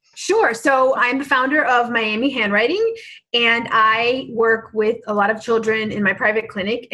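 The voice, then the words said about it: American accent. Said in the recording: “your accent again. I've missed the US accent”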